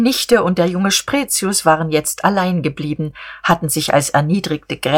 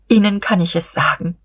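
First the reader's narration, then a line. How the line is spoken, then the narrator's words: Sighing. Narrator (German): seufzte sie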